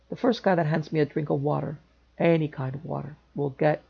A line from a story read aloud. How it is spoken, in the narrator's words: said thickly